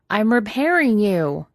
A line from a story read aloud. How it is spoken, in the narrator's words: Pidge yelled